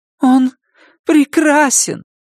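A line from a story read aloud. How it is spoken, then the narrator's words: Pleading. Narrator (Russian): умоляющим тоном произнесла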